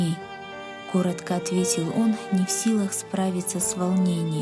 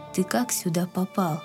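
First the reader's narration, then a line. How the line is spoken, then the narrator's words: Plain question. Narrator (Russian): спросил отец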